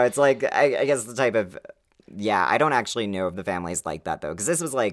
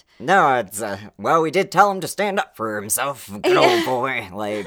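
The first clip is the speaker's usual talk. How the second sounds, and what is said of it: Put-on accent voicing a neighbor. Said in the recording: “Is that supposed to be an Oklahoma accent? ... No, that was supposed to be, like, sawed-off shotgun accent. That's the lady across the street.”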